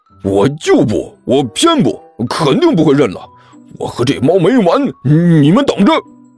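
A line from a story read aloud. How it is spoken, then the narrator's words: Loud. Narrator (Chinese): 尼才大声说道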